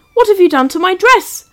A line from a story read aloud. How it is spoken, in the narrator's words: Mum … cried out loud